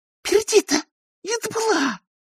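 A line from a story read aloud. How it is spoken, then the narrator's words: Hissing. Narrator (Russian): прошипела она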